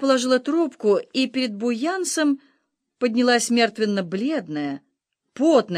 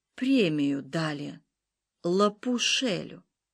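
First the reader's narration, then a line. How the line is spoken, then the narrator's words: Sepulchral voice. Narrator (Russian): Загробным голосом она произнесла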